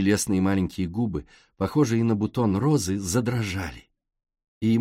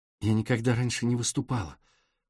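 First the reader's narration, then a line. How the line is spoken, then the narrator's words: Whispered. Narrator (Russian): прошептала она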